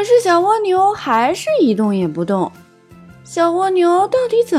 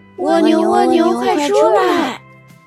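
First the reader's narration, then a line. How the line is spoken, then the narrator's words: Group calling together. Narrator (Chinese): 大家 一起喊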